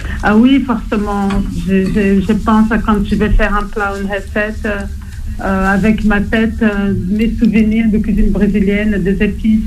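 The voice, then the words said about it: Brazilian accent in French. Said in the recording (French): “on a peut-être remarqué à votre accent... vous êtes née au Brésil”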